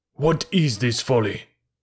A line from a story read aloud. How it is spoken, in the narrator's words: said Buldeo angrily